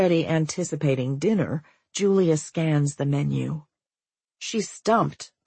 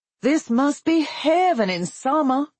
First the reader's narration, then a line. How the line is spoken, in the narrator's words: Julia shouts